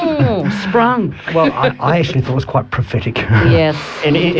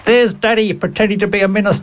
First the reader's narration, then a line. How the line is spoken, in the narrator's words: She was very young, called out notoriously